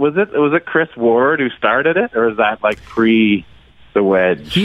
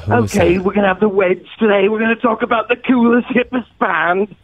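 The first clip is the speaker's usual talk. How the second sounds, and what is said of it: Put-on British accent. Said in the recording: “that British guy ... That's a pretty good accent.”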